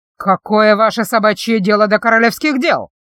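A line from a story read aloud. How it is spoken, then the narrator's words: Loud sergeant-like bellow. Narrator (Russian): телохранитель набрал в грудь воздуха и гаркнул не хуже сержанта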